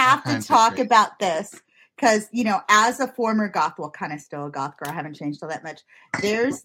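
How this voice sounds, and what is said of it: Usual voice. Nothing is said of it.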